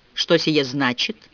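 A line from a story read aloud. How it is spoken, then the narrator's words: Dry question. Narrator (Russian): поинтересовался он сухо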